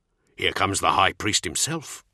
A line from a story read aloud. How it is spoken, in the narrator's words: he growled